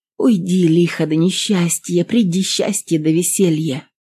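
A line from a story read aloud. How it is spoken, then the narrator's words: Feverish whisper. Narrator (Russian): Она в горячке шептала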